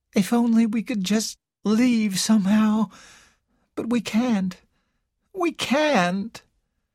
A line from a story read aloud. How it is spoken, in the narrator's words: Carol said in a hopeless voice